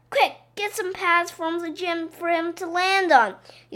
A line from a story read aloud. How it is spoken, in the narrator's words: yelled Mrs